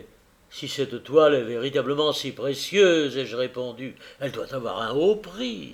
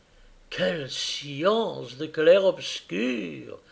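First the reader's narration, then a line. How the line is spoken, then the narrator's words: Delighted murmur while munching. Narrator (French): murmurait-il en grignotant sa dernière croûte avec délices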